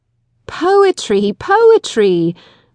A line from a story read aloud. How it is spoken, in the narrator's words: we cried impatiently